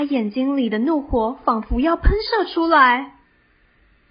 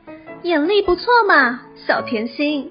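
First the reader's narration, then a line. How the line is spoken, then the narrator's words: Quiet voice. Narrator (Chinese): 雷亚小声的说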